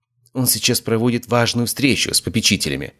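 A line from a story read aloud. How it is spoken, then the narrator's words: Whisper. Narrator (Russian): прошептала она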